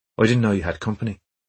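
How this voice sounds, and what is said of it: Irish accent. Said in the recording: “Her Irish accent was immediately distinctive.”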